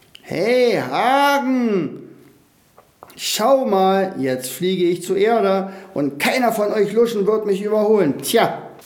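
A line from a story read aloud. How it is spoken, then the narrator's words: Screaming as loud as possible. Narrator (German): schrie, so laut er nur konnte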